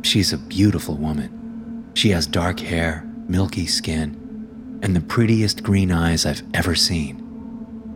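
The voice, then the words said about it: American accent. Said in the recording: “I'm American, as I'm sure you can tell by my accent”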